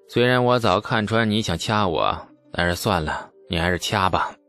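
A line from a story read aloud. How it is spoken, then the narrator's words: Resigned sigh while walking. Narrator (Chinese): 李素叹了一口气，边走边说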